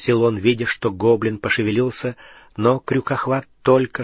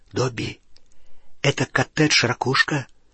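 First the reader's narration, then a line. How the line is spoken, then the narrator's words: Whispered question. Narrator (Russian): спросил он шепотом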